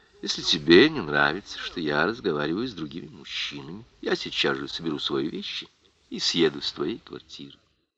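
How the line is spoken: Calm reply. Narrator (Russian): Ноэль спокойно ответила

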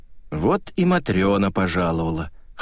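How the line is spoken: Wry snort. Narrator (Russian): хмыкнул Вербин

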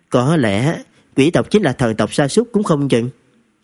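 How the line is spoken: Smiling. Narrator (Vietnamese): Trần Thực mỉm cười, nói

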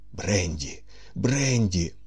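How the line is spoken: Hoarse, groaning. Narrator (Ukrainian): прохрипів і, застогнавши

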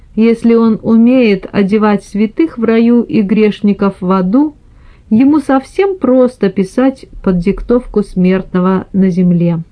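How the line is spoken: Laughing. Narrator (Russian): сказал, смеясь, Микеланджело

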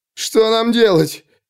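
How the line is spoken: Sobbing. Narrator (Russian): всхлипнул кто-то

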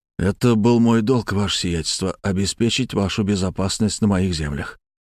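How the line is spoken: Quiet. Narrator (Russian): тихо сказал я

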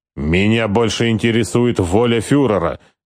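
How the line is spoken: Sharp interruption. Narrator (Russian): резко прервал его Скорцени

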